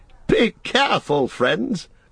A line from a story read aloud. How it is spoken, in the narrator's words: cried Gildor, laughing